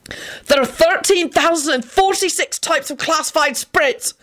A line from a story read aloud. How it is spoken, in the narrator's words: Benji yelled wildly